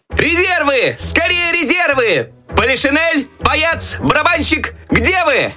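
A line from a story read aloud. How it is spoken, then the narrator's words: Desperate shout. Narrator (Russian): отчаянно кричал Щелкунчик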